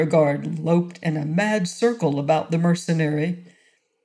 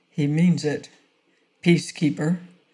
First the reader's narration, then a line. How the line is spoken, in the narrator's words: said Peter Hawley quietly